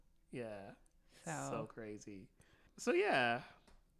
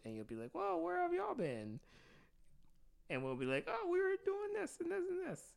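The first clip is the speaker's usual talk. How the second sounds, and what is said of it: Imitates the listeners' voice. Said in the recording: “his impression of you... Your impression of the listeners.”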